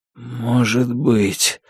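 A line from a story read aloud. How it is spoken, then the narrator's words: Weak voice. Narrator (Russian): слабым голосом ответил Лонни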